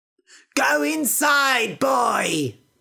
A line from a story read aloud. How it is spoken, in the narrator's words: shouted his mother